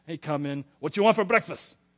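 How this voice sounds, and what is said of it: Put-on Cuban Spanish accent. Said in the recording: “he's a Cuban man ... my little dad and his funny little accent”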